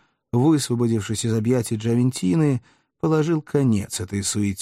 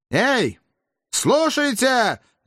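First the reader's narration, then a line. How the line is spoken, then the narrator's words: Shouting. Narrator (Russian): закричал он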